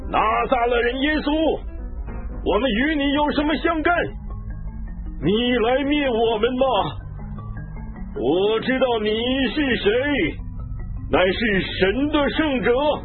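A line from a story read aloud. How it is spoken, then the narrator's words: Possessed man crying out. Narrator (Chinese): 一个人被巫鬼附着，他喊叫说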